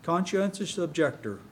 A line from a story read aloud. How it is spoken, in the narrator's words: John answered